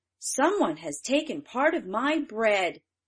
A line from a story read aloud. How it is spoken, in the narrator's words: The third cried